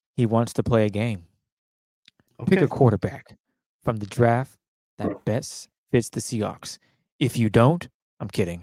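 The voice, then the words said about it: Creepy Jigsaw villain voice impression. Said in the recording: “I'm trying to do my best Saw impression. ... Like Jigsaw, dog. You scared me.”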